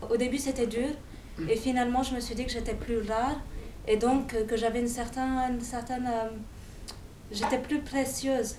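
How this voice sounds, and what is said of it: Foreign accent, somewhat Russian-sounding. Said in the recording (French): “Tu avais toujours l'accent? ... L'accent Ladas. ... Un peu russe comme accent. ... On me dit un peu de tout. Hein. Mmh. Un peu de Barbès, un peu de partout”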